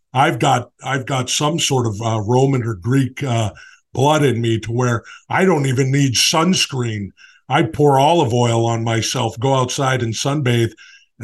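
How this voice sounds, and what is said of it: Impression of Jesse. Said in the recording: “best impression I've ever heard in my life ... everybody who's ever been on Rogan ... comes right. through Jesse ... when you do him.”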